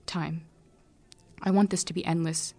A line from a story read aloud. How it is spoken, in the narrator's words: Araline says